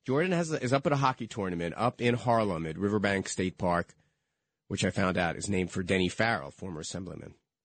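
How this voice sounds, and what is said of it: Slightly hoarse voice. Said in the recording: “a little bit hoarse in my throat”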